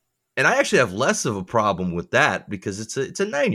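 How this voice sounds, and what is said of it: Usual voice. Nothing is said of it.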